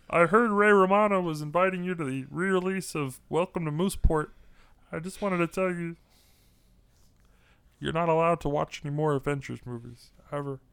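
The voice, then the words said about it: Imitates another person's voice. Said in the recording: “it's Mark Ruffalo again ... the Mark Ruffalo stuff”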